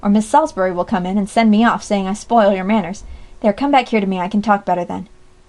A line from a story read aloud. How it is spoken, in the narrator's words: cried Jack, trying to speak lightly